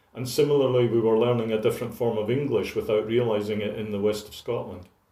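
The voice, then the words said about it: Largely Scottish accent. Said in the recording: “you hear me read it with a largely Scottish accent, which I've had since the age of 11”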